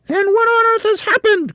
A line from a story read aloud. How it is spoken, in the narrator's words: cried Mrs